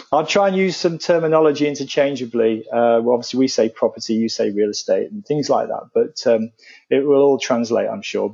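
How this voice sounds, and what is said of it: British accent. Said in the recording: “my accent being British, as you can probably tell”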